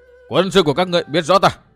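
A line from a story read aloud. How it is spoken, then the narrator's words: Loud shout. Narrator (Vietnamese): Dương Viễn hét lên ầm ĩ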